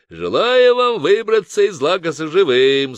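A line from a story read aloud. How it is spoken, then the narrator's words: Shouted while laughing. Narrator (Russian): смеясь, крикнул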